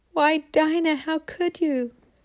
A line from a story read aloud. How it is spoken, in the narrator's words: Marcella ... as she cried